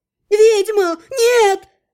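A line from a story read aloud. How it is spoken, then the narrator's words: Shriek. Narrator (Russian): завизжал кто-то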